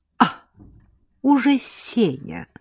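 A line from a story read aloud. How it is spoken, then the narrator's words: Drawling woman. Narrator (Russian): протянула Лола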